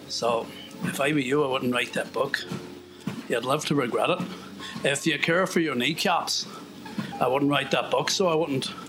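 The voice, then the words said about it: Unconvincing put-on accent. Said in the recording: “that's not a great accent ... I need to warm up. I can do better.”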